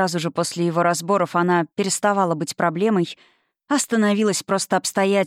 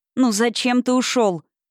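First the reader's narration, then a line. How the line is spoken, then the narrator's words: Shouting at the sky. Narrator (Russian): крикнула Зина в пасмурное московское небо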